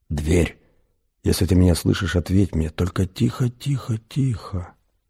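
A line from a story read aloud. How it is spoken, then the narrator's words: Fearful whisper. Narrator (Russian): Сделав несколько опасливых вдохов, он прошептал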